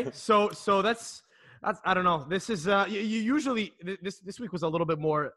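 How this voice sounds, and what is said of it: Usual voice. Nothing is said of it.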